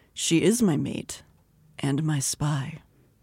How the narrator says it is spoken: I said too quietly

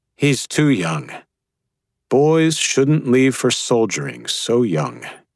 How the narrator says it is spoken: the general said gently

